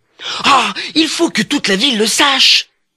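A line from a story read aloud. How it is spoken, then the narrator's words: Shouting. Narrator (French): en criant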